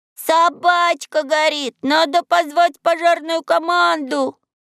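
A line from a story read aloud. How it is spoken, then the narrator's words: Boy shouting. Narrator (Russian): какой-то мальчик закричал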